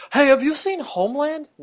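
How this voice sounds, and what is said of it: Imitates another person's voice. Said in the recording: “that's actually a really good impression.”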